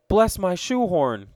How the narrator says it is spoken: cried Mr

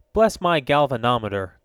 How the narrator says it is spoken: cried Mr

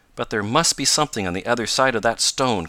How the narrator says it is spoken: cried Tom

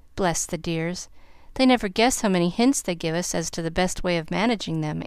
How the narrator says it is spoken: answered Mrs

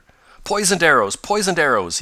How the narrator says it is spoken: exclaimed

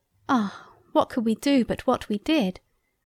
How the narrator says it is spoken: We sighed

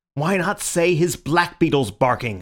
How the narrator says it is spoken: said Syme furiously

